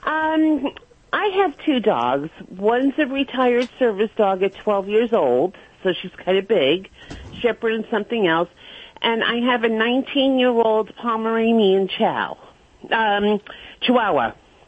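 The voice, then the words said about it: New York accent. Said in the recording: “You have that kind of New York accent.”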